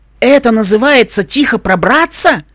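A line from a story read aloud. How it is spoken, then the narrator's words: Howled. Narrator (Russian): взвыла Аля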